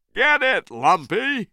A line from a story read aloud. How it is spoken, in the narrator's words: shouted